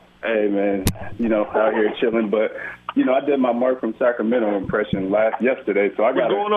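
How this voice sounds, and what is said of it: Usual voice. Nothing is said of it.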